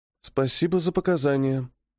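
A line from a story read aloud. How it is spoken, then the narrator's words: Quiet. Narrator (Russian): тихим тоном произносит она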